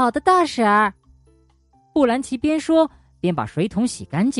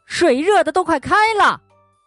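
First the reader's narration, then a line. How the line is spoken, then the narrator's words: Roaring. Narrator (Chinese): 罗斯吼道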